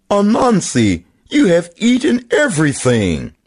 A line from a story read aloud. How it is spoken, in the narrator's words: When Turtle saw the empty table, he cried